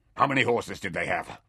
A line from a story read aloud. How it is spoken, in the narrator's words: Trock snarled